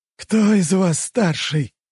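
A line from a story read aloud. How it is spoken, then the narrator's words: Hoarse question. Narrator (Russian): хрипло спросил Илья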